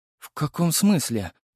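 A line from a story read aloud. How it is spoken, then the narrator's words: Bewildered question. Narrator (Russian): растерянно спросила Елизавета Максимовна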